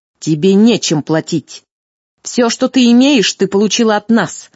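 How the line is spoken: Malicious smirk. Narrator (Russian): злобно усмехнулась Эрестея

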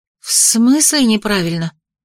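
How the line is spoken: Breathed out. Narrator (Russian): выдохнула

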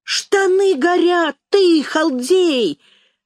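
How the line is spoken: Shout. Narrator (Russian): закричал Жмырев

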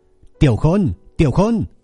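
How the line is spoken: Loud shout. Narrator (Vietnamese): Lâm Dương lại lần nữa hét lớn

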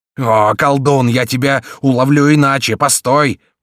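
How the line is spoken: Roaring. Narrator (Russian): проревел Гриф

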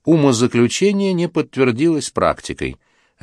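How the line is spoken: Soft pleasant voice. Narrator (Russian): Кондрашов скажет своим мягким, приятным голосом

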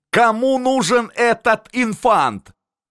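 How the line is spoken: Ambassador yelling. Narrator (Russian): орал на Остермана посол цесарский

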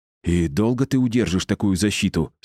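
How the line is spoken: Through clenched teeth. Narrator (Russian): сквозь зубы сказала Анна

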